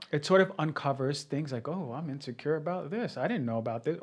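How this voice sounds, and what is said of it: New York New Jersey accent. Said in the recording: “I heard an accent. ... Yeah, that's New York, New Jersey”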